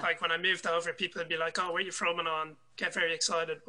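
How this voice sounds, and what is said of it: Irish accent. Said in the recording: “I love your accent. It's so contagious. ... Such a lovely accent. ... all the Irish lads”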